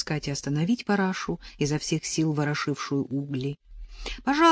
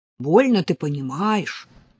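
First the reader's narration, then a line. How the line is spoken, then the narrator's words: Grumbling. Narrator (Russian): проворчала Параша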